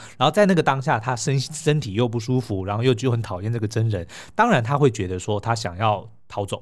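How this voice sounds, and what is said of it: Usual voice. Nothing is said of it.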